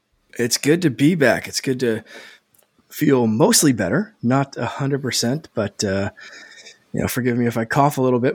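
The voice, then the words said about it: Slightly raspy voice. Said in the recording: “My voice is mostly back. It's still a little raspy”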